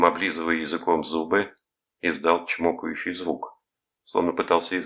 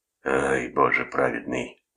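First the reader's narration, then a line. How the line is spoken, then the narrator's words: Sighing. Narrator (Russian): вздохнул он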